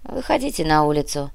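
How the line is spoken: Sigh. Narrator (Russian): вздохнул Кортес

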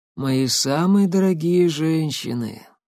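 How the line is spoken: Hoarse, wheezy. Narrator (Russian): хрипло просипел он

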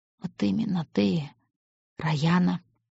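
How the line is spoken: Very quiet. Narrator (Russian): очень тихо сказал он

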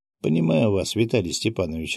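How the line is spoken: Laughing. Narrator (Russian): рассмеялся я

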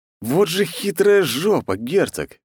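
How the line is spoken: Good-natured laughing. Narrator (Russian): беззлобно засмеялся я

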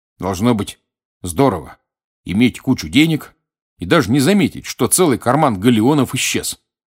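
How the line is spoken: Curt, clipped. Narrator (Russian): отрывисто сказал Рон

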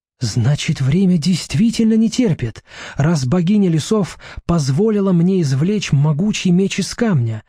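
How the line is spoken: Excited exclamation. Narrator (Russian): взволнованно восклицает она

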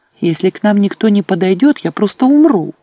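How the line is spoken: Exclaimed. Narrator (Russian): воскликнула Неан

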